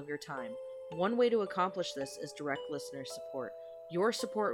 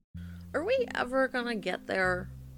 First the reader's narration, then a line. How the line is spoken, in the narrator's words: Sarah whined from the back seat